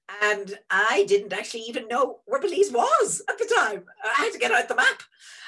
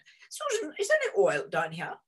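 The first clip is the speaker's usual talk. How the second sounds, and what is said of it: Very proper British accent. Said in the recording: “in a very proper accent”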